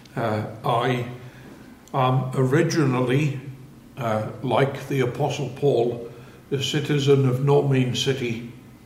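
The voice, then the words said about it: Northeast English accent. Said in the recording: “I come from Sunderland in the northeast of England... my accent is rather strange for these parts”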